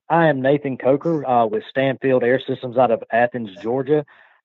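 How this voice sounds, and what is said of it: Georgia regional accent. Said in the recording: “If you can't tell by my accent”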